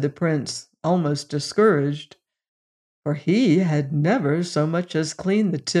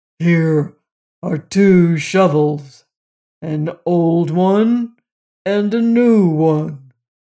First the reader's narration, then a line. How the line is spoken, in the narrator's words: said the giant gruffly